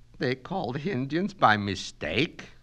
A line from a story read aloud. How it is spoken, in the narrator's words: moaned Mrs